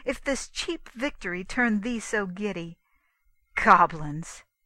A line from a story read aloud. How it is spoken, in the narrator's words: cried the prince